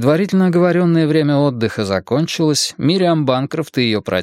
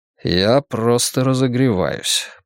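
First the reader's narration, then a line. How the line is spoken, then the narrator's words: Muttered reply. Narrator (Russian): пробормотал я в ответ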